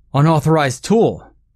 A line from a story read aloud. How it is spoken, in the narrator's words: screamed the first cop